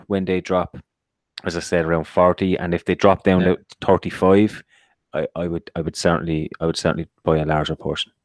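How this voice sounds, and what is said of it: Speaks with a foreign accent. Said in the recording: “that's my accent,”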